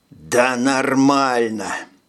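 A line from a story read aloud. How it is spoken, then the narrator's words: Alarmed growl. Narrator (Russian): прорычал, поняв, что вколол что-то не то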